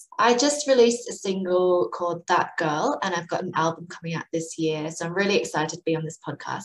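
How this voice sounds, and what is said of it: Mixed British-influenced accent. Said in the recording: “I grew up in the UK. So that's the explanation for my accent, which is a bit of a mess.”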